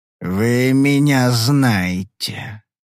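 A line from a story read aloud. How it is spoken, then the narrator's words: Unpleasant voice. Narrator (Russian): сказал он неприятным голосом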